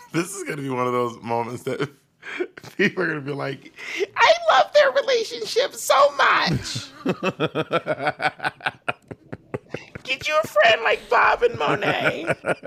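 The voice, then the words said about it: Put-on imitation voice. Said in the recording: “What is this voice? ... You know my voice I do when I'm imitating people.”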